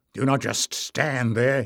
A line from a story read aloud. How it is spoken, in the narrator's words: he said roughly